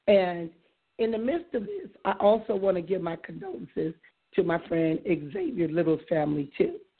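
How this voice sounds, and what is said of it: Hoarse, strained voice. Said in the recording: “excuse my voice. I'll probably share why I'm hoarse today, but right about now, my throat is killing me”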